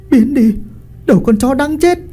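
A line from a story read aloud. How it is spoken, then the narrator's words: Terrified scream. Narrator (Vietnamese): Tiên kinh hãi thét lên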